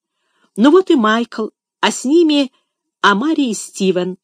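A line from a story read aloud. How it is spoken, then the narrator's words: Joyful exclamation. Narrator (Russian): радостно воскликнул Финиас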